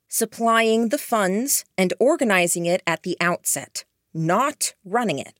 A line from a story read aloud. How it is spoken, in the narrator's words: I said